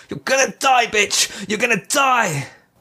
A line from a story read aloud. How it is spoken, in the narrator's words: Jacob heard himself yelling